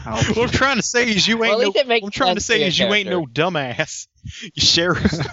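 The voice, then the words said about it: Put-on Southern accent. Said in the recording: “I'm developing a southern accent again ... Why are you selling southern?”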